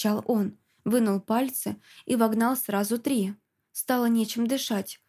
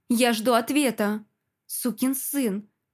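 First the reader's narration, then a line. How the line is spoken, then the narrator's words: Angry, through teeth. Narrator (Russian): Процедила я и, злочившись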